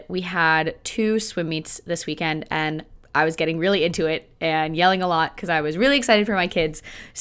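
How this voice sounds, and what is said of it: Strained, partly lost voice. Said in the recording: “I'm losing my voice a little bit ... my voice because it is not of the best quality this week”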